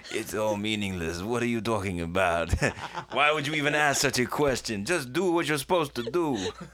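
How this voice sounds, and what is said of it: Weak put-on French accent. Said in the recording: “That's my French accent. It's not very good”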